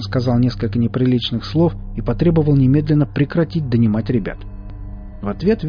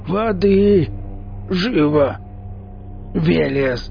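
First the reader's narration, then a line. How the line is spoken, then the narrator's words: Hoarse wheeze. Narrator (Russian): прохрипел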